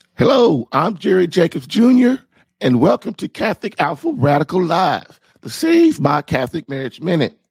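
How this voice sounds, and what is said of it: Nearly lost, worn-out voice. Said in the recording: “I must be completely, totally exhausted because my voice is almost gone today. ... forgive my horrid voice ... I just have a serious, serious cold”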